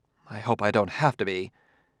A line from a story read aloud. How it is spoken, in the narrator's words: She added nervously